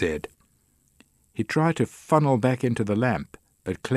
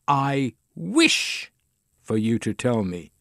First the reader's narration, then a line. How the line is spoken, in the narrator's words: she said